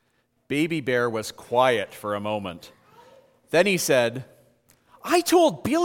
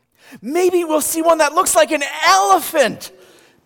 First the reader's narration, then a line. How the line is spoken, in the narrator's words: Baby Bear said excitedly